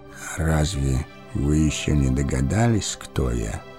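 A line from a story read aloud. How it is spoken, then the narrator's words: Old man's quiet question. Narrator (Russian): тихо спросил старец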